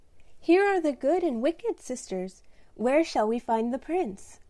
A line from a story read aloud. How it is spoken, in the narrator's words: Laura saying playfully